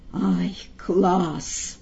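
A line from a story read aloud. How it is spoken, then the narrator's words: Admiring whisper. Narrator (Russian): гример восхищенно шепнул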